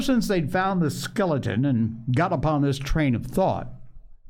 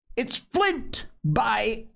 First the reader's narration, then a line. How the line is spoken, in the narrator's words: cried Mary